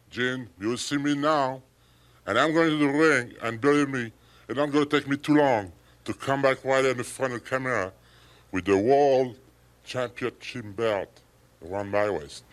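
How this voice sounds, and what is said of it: Thick French accent. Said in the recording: “in his thick French accent”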